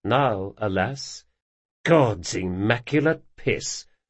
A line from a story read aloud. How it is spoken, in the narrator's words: muttered Locke